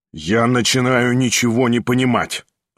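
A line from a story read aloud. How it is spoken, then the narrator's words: Angry, spiteful. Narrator (Russian): злобно проговорил Ставрогин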